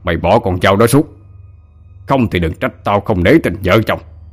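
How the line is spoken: Enraged roar. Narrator (Vietnamese): Ông ta điên tiết gầm lên

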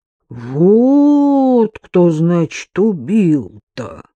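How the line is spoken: Unsurprised drawl. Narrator (Russian): протянул без удивления Иван Петрович

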